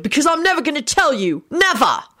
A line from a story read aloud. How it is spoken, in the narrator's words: William shouted